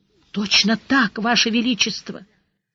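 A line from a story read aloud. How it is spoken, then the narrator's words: Weak voice. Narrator (Russian): Слабым голосом поддержал мокрехонький гвардеец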